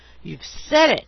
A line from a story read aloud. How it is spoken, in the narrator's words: I exclaimed